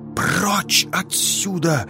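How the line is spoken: Whisper. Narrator (Russian): прошептала она

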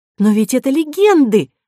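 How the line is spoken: Exclamation. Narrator (Russian): воскликнула Кора

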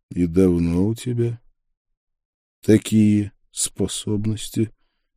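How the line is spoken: Gentle question. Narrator (Russian): мягко поинтересовался я

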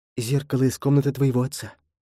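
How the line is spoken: Whispered. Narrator (Russian): прошептала она Джекобу

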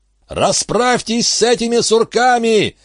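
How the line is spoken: Jubilant yelling. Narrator (Russian): ликующе орал он

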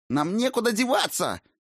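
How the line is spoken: Shrill sorcerer's shriek. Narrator (Russian): взвизгнул чародей

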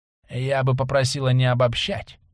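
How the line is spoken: Hoarse voice. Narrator (Russian): Послышался знакомый хриплый голос

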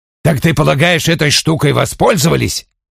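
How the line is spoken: Sharp. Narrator (Russian): он резко сказал

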